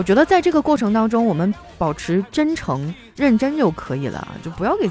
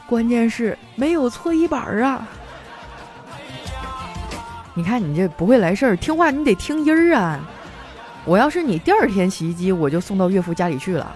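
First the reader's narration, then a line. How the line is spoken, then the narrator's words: Sighing father-in-law. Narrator (Chinese): 岳父叹了口气说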